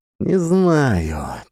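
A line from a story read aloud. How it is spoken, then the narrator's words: Heavy sigh. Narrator (Russian): тяжело вздохнул Шишков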